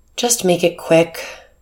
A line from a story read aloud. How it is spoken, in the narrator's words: sighed